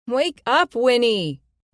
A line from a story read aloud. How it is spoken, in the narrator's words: Liz had shouted